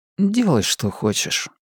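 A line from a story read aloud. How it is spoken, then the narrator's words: Quiet repetition. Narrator (Russian): негромко повторил Костик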